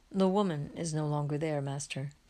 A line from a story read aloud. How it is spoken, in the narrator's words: says Andrew sadly